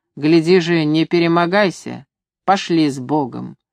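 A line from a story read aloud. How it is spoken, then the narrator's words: Stern advice. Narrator (Russian): Григорий строго посоветовал Ивану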